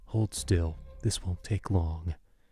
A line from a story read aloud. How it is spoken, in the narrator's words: The one who held me whispered in my ear